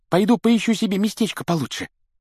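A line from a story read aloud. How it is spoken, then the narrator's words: Squeaky. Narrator (Russian): пропищал ему в спину Колин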